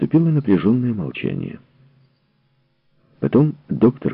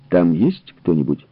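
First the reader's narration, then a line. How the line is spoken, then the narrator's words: Plain question. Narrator (Russian): спросил генерал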